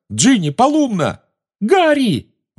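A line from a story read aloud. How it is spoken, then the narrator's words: Shrieked. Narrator (Russian): взвизгнула Гермиона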